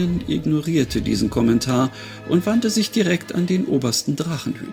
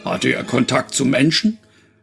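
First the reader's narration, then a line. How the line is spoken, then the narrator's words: Booming male voice asking. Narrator (German): wollte der Mann mit der Donnerstimme wissen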